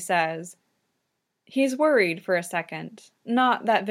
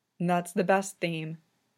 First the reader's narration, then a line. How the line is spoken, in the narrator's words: Victor says, his voice equally soft